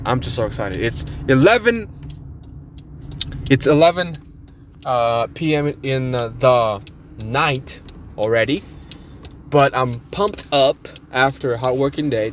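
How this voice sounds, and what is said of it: Loud, excited yelling. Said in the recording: “sorry that I'm yelling to you guys, but I'm so excited”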